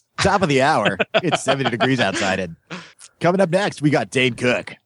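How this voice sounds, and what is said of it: Exaggerated radio DJ voice. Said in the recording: “radio voice ... You're doing your puker voice ... That's what they call those guys that talk like this ... That's called a puker voice.”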